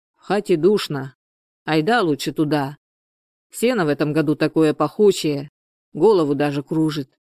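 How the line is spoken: Plain. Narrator (Russian): сказал он жене

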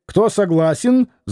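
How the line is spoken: Shrieked. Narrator (Russian): завизжал Лютов

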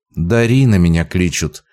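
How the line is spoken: Calm motherly voice. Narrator (Russian): спокойно кивнула мать

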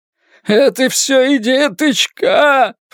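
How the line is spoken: Shouting. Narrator (Russian): прокричал он

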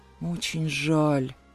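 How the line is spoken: Mumbling. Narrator (Russian): промямлил я

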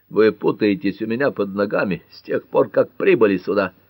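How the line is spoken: Hoarse declaration. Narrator (Russian): хрипло заявил он

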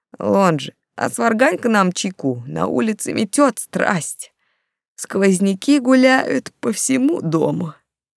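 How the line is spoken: Sleepy. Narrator (Russian): Нилс сонно произнес

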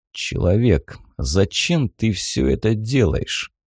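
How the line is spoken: Cold werewolf voice. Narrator (Russian): холодно произнес оборотень

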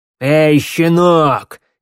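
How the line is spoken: Shouted. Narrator (Russian): крикнул

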